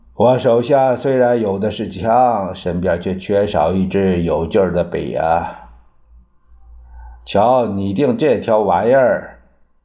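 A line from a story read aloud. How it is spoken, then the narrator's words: Sighing. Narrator (Chinese): 还叹了口气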